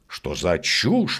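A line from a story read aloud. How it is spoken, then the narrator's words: Exclaiming. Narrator (Russian): воскликнул он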